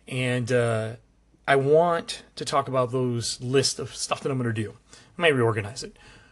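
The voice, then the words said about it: Strained, worn-out voice. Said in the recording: “My voice is a little shot.”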